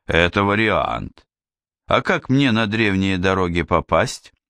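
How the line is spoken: Chuckling. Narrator (Russian): Канцлер хохотнул

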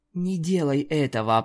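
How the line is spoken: Whisper. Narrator (Russian): прошептала

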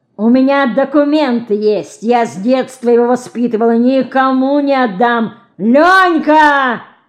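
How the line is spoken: Furious yell. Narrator (Russian): заорал, останавливаясь перед мальчиком и глядя на него покрасневшими от злобы глазами

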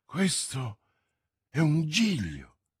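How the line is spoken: Exclaimed. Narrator (Italian): esclamò Felton

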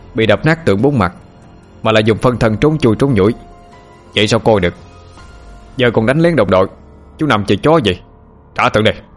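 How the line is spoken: Sharp shout. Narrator (Vietnamese): chột quát lên

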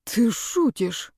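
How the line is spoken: Breathy exhale. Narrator (Russian): выдохнул

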